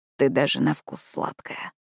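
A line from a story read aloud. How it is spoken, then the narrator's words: Hoarse voice. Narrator (Russian): хрипло сказать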